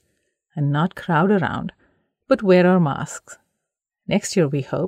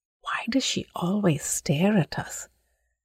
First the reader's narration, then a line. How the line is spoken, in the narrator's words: Jaya whispered